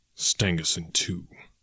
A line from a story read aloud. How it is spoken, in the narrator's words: he muttered